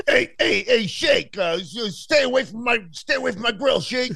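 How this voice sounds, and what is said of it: Cartoon character voice impression. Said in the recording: “I can't do it as good as I could do the car”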